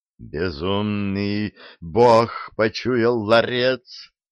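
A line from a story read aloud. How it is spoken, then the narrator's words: Dragon roaring. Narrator (Russian): взревел вышедший из оцепенения дракон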